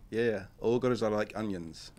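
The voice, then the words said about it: Put-on Ghanaian accent. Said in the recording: “Excuse my Ghanaian accent.”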